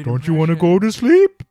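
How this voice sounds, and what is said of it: Character voice of a talking bed. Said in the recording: “he's a talking bed and he sounds like this ... That's a great impression.”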